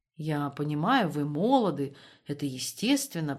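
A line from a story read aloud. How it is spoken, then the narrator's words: Mumbled. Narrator (Russian): пробормотал он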